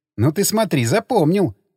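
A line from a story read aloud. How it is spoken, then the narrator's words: Laughing. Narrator (Russian): засмеялась она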